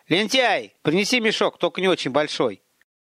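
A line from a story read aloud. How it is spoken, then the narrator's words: Commanding shout. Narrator (Russian): Приказным тоном крикнул Гарин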